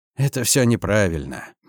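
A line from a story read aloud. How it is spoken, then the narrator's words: Sighing. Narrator (Russian): Марк вздохнул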